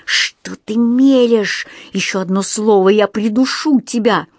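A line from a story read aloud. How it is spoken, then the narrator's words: Threatening hiss. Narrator (Russian): он прошипел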